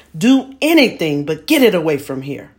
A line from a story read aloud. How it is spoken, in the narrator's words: shouting